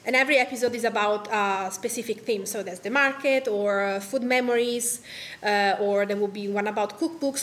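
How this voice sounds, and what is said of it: Italian accent. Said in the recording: “this Italian accent is in my language when I speak”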